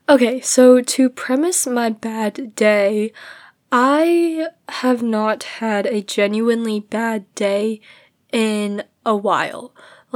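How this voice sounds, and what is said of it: Congested, slightly lispy voice. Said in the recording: “my voice is so congested right now ... my words get like gradually lispy”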